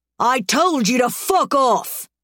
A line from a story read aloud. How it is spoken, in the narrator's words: he roars in my face